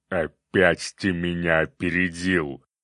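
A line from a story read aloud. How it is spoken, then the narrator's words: Growled. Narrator (Russian): прорычал циклоп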